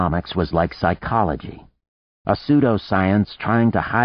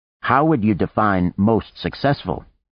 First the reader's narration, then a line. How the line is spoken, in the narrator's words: Art asked